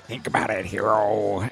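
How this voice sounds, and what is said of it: Creepy villain voice impression. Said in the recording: “he's got a creepy voice... when he's doing that whole in Spider-Man, he's like”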